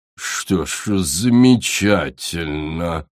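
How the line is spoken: Strange drawl. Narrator (Russian): Со странным выражением протянула Корал

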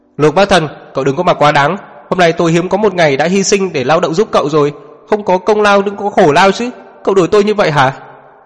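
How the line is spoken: Angry shout. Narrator (Vietnamese): Lai Chi quát lên với anh

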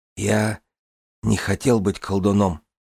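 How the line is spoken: Whispered. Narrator (Russian): прошептал Тамин

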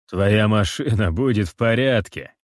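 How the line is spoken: Laughing reassurance. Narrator (Russian): рассмеявшись, заверяю

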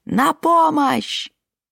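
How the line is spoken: Shrill desperate scream. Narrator (Russian): она истошно завопила

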